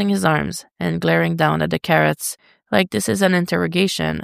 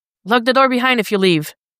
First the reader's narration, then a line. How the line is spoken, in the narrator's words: Dick shouts back